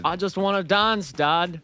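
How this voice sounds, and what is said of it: Mixed Australian-South African put-on accent. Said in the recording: “What kind of accent is that? It's like a half Australian, half South African ... it's like a German man trying to do an Australian accent”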